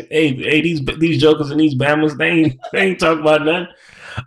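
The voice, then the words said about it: Put-on Maryland accent. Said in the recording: “I can't even do a Maryland accent.”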